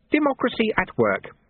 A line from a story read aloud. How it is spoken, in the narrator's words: said Lutze happily